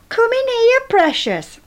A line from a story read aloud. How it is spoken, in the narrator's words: he shouted